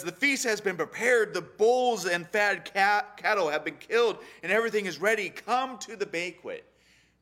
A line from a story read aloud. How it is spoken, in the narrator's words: pleading with them